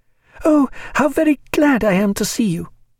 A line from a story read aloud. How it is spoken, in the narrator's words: she cried, yet with a certain embarrassment in her joy